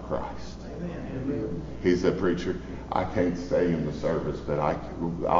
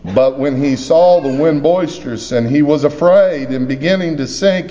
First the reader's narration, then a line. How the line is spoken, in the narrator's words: he cried